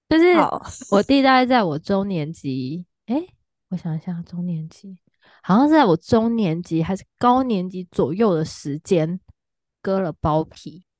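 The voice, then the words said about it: Speaking quietly, lowered voice. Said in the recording (Chinese): “我要讲小声一点，因为我弟在隔壁”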